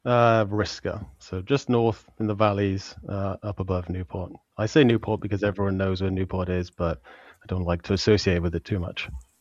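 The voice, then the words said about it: British South Welsh accent. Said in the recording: “The British accent hides a lot ... I'm from South Wales, near Newport.”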